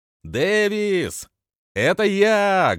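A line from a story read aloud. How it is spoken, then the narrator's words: Loud shout. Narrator (Russian): громко кричу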